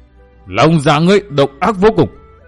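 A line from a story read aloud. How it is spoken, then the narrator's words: Roaring. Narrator (Vietnamese): Ngũ Diện Diêm La gầm rống một tiếng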